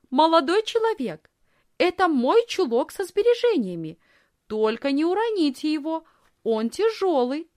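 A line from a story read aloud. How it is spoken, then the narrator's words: Loud. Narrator (Russian): Лисхин громко сказала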